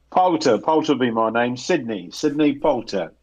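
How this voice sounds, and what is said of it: Put-on English regional accent. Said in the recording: “Do I sense the Midlands in your voice? ... I recognise the, the, the accent. ... you're more London than Midlands.”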